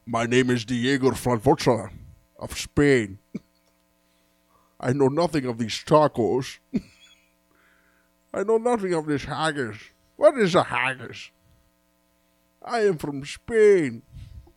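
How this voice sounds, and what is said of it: Put-on Scottish accent. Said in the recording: “with a Scottish accent”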